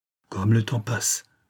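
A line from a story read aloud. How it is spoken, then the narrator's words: Gamekeeper murmuring. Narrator (French): murmura Mathurin, le garde-chasse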